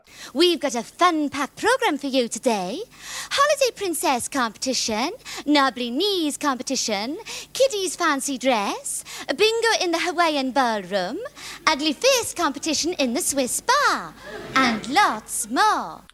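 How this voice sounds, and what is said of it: Exaggerated Welsh accent, Gladys Pugh. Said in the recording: “she's Welsh... the accent is well played... strong regional accents... She is Welsh, but she's really ramping”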